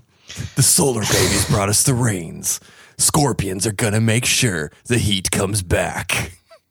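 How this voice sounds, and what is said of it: Dramatic movie trailer narrator voice. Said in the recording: “You have a good trailer voice.”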